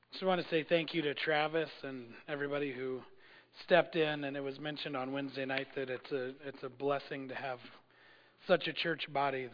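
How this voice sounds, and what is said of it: Voice not fully recovered, strained. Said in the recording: “my voice is not completely back”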